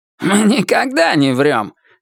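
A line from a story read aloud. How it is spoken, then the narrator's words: Offended snap. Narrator (Russian): обиженно огрызнулся мистер Крупп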